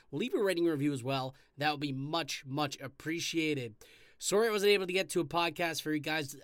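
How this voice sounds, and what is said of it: Slightly hoarse voice. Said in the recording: “I don't know if you can tell my voice, a little bit hoarse from that Italian win the other day ... A lot of yelling”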